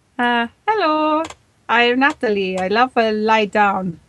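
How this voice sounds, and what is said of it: Failed Pakistani accent, sounds Italian. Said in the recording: “Pakistani, please... That's almost Italian... I'd say it was a completely Italian accent... I don't know how to do a Pakistani accent.”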